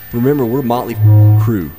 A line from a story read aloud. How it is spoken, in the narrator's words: Nikki shouted